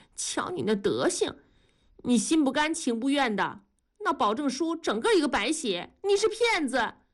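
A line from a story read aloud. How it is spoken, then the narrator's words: Just stopped crying. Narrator (Chinese): 文丽不哭了，说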